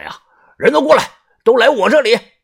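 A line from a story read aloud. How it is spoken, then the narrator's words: Loud shout. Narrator (Chinese): 铁蛋儿 大喊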